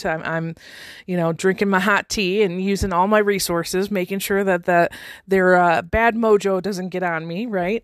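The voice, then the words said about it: Slightly hoarse, froggy voice. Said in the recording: “I've got a little bit of a frog in my throat.”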